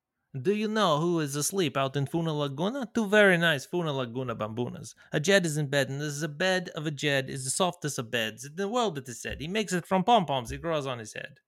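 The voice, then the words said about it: Put-on accent like Khabib. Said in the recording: “I'm curious on what that accent is. I mean, were you Khabib right there?”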